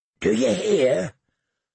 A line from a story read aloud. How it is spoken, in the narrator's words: Hot Pie asked in a hoarse whisper